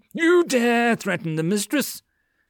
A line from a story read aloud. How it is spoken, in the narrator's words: Mills suddenly laughed wickedly